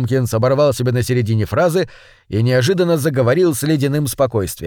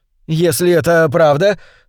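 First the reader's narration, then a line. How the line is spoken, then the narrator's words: Slightly irritated. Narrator (Russian): слегка раздраженно сказал Уэйн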